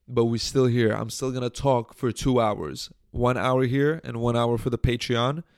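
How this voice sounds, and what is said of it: Hoarse, sick-sounding voice. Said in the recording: “I'm sick. I'm fucked up. My voice is fucked up. My throat is hurting.”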